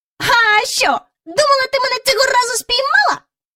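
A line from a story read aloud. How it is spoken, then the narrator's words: Mocking shout. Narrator (Ukrainian): насмішкувато крикнув він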